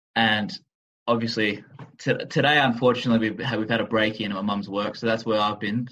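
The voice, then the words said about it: Australian accent. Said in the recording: “my accent, I'm from Melbourne, Australia”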